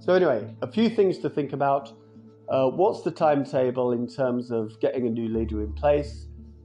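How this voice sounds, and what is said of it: Ill voice with a cough. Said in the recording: “Quite a good day to be off work with a cough ... I'm genuinely ill. I am actually ill. You can probably hear it in my voice”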